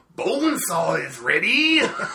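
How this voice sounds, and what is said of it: Macho Man Randy Savage impression. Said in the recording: “That's the Macho Man impression that I was promised.”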